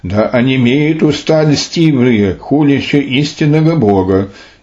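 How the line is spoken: Exclamation. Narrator (Russian): Святые же воскликнули

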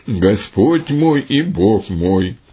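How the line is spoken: Exclaiming. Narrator (Russian): Фома воскликнул

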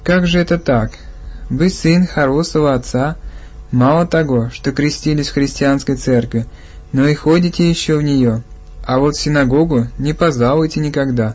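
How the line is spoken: Kindly, gentle. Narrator (Russian): ласково сказал

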